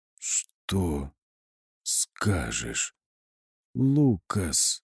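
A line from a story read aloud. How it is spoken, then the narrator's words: Hoarse rasp. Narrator (Russian): прохрипела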